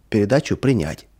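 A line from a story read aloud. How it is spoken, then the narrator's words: Plain. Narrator (Russian): и сказал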